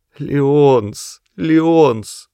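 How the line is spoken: Moaning. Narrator (Russian): простонала Октавия

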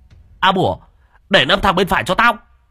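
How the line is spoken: Shouting. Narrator (Vietnamese): Hùng hét lên

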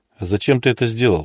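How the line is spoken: Calm question. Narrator (Russian): спокойно спросил Илья

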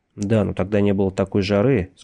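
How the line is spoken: Plain. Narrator (Russian): сказал Йенсен

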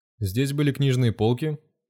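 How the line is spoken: Plain question. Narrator (Russian): спросил Дронго

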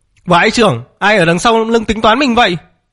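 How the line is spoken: Angry shout. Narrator (Vietnamese): Mạc Nam tức tối quát lên

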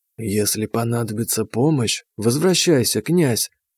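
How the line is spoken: Snake speaking softly. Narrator (Russian): негромко сказала нам вслед змея

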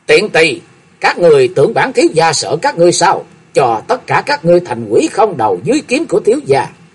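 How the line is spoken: Loud laughter. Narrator (Vietnamese): cười lớn nói

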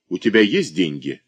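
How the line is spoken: Sharp. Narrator (Russian): резко говорит Гуревич

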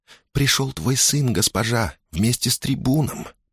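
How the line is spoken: Whisper. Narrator (Russian): прошептала девушка

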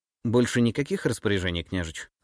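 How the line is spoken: Plain question. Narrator (Russian): спросила помощница

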